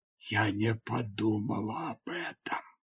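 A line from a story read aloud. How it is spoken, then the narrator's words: Whispered. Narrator (Russian): прошептала она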